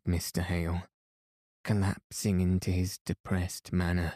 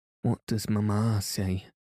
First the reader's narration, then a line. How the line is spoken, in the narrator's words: asked she, with a deep sigh